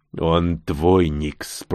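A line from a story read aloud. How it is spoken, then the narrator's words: Purring into ear. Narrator (Russian): промурлыкал чужой на ухо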